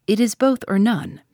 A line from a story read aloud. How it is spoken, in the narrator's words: said he